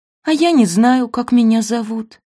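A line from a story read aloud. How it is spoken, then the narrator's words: Puppy's sigh. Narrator (Russian): вздохнул щенок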